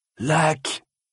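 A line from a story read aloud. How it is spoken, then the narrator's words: Exhausted, satisfied man murmuring. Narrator (French): murmura l'homme, épuisé et satisfait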